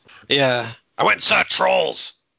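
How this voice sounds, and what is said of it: Imitates another person's voice. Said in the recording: “your impression of Dingus's dad? ... It's a little off base”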